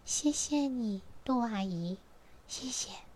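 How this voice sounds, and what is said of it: Soft whispered voice. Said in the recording (Chinese): “小小声的说”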